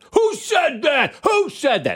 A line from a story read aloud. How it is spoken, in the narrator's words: the ref starts screaming into the crowd